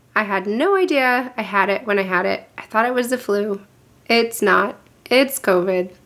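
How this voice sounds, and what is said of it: Unwell, off-sounding voice. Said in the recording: “my voice is all wackadoo”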